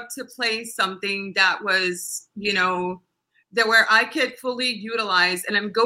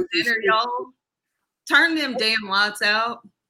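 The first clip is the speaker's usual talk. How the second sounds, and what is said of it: Southern Arkansas accent. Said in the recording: “They have to cast you as a girl from Arkansas ... You're sophisticated when you speak proper English, but when you have the accent, you're adorable.”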